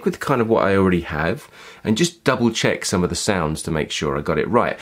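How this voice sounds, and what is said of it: Sharp, barky native accent. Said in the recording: “my own accent, naturally, when I speak, the words bounce off my hard palate, and out. It's quite barky, it's quite sharp.”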